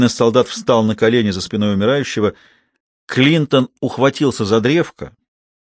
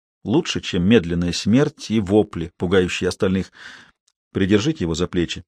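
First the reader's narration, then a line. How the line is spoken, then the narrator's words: Quiet command. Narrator (Russian): тихонько велел Клинтон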